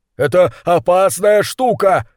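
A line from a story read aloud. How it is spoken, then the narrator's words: Yelling. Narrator (Russian): заорал крысолов номер два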